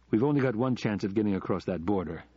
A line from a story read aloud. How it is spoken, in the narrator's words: said Scott